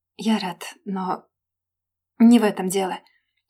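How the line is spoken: Strangled whisper. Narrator (Russian): прошептал сдавленно

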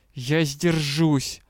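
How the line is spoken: Growling. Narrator (Russian): прорычал магистр

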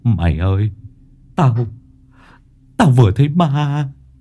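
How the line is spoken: Trembling, forced calm. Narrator (Vietnamese): Lâm cố gắng bình tĩnh, run run

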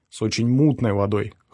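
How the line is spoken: Snort. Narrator (Russian): хмыкнул

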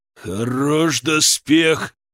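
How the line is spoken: Bear exclaiming. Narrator (Russian): воскликнул медведь

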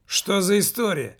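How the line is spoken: Loud question. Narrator (Russian): громко спросил маркетинг

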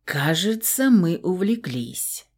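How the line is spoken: Husky whisper. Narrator (Russian): хрипловато произнес Фауст … такой его хриплый шепот

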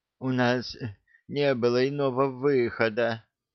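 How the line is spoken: Barely audible rustle. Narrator (Russian): едва слышно прошелестел мэтр Альви

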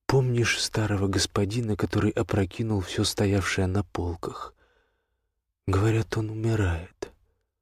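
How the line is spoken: Quiet. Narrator (Russian): кто-то негромко сказал

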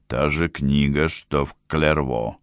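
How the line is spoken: Quiet. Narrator (Russian): тихо сказал

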